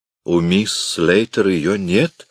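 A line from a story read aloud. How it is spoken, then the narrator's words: Confused repetition. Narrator (Russian): растерянно повторила миссис Эллис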